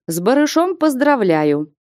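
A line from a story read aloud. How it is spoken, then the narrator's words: Cheerful chuckling speech. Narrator (Russian): весело усмехнувшись, молвил Колышкин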